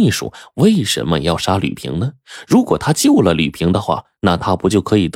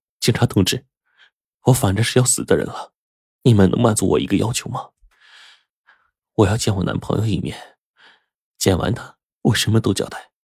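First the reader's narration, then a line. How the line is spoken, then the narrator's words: Resolute after crying. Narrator (Chinese): 他哭了一阵，忽然就表情决绝的对着马军说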